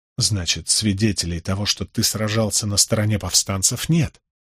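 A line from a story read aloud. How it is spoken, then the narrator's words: Low-voiced remark. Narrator (Russian): вполголоса заметил я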